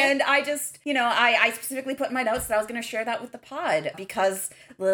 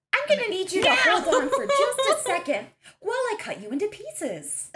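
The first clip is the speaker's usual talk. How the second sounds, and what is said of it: Fake polite customer-service voice. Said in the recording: “that's my customer service voice ... that is a fake voice”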